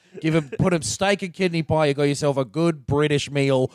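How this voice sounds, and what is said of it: Attempted British accent sounding Australian. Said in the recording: “which I'm doing the wrong accent for... You went more Australian than usual.”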